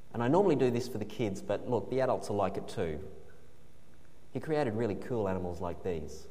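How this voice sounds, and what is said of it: Australian accent. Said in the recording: “this isn't an American accent... This is Australian.”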